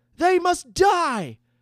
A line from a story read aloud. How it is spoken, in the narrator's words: shouted a young mage, his hatred beyond his years